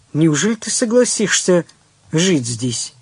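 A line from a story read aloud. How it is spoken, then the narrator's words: Plain. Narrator (Russian): спросил Белозеров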